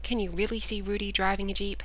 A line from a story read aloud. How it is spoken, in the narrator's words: he asked, chuckling